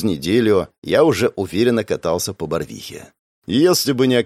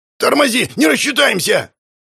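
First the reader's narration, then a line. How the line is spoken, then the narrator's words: Yelled. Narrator (Russian): завопил Алексеич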